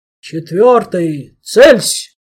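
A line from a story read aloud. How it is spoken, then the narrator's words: Full-volume commanding roar. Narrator (Russian): Проревел Штайнбрехер во всю мощь своего командирского голоса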